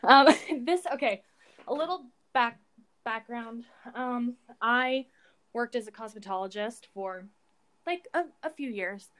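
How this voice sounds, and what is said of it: Out of breath, gasping. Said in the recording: “I'm out of breath.”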